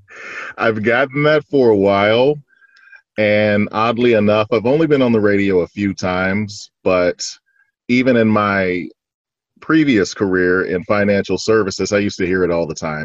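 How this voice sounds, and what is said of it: Rich radio-style speaking voice. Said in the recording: “radio voice. Like your voice is so, like it's it's such a radio voice.”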